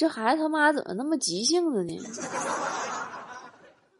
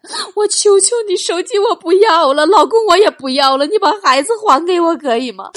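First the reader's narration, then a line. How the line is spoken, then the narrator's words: Frantic crying mother. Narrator (Chinese): 电话那头疯了，孩子他妈哭喊着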